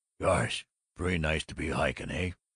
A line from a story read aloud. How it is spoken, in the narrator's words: he grunted